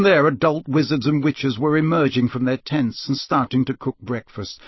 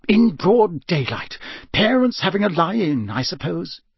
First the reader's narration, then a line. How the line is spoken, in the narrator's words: he muttered distractedly